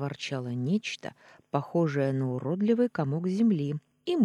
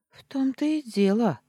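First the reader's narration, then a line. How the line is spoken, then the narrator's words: Confused babbling. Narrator (Russian): растерянно пролепетала я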